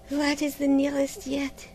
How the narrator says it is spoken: murmured

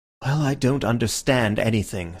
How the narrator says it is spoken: said Syme, sighing

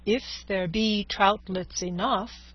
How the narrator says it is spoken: said Don Quixote

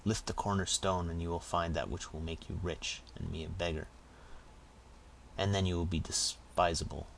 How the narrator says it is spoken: said the housekeeper bitterly

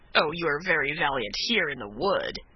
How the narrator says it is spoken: cried the other, with a savage laugh

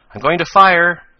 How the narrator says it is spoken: suddenly cried Tom

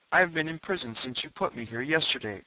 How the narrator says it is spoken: I answered

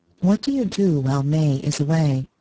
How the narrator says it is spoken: She said, after a pause

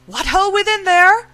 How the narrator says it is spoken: his voice came plainly to the garrison in the gatehouse

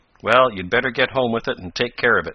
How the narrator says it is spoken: said Tom

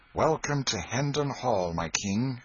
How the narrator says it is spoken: exclaimed Miles

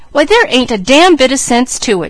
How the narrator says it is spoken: cried

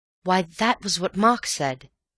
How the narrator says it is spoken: cried

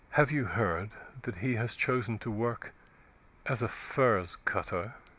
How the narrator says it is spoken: said in a low, mournful voice

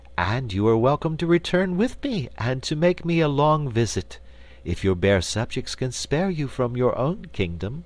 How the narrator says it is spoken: returned Ozma sweetly

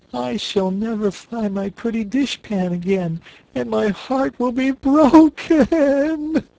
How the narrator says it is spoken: she sobbed

